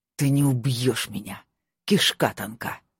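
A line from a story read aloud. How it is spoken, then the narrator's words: Hissed. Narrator (Russian): прошипел он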